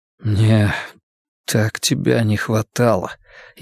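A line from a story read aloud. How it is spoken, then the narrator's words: Barely audible whisper. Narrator (Russian): еле слышно шепчет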